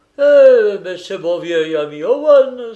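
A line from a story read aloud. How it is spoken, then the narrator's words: Exclaimed. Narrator (French): s'écria Robert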